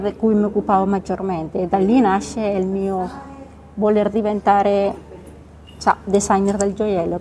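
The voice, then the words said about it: Spanish accent in Italian. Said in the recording (Italian): “E sento un accento uh, ... spagnolo.”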